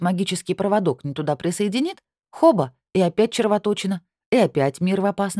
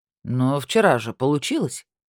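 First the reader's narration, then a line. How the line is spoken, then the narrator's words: Displeased grumble. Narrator (Russian): недовольно буркнул он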